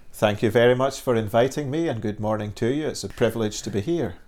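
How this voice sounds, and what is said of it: Scottish accent mixed with Northern Irish. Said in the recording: “accent ... originally I come from Dundee on the east coast of Scotland ... the accent has got a little bit mingled. When I go back to Dundee, people say you sound very Northern Irish.”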